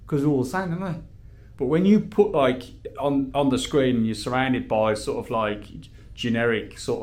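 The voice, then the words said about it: Strong Brummie accent. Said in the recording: “I've got this accent ... you're the only Brummie on TV ... his accent's strong”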